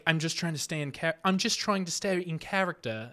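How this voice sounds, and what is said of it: Bad imitation British accent. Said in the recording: “That was my terrible British accent for you.”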